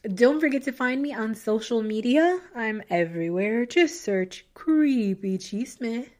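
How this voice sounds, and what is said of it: Hoarse, fading voice. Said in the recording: “I am losing my voice”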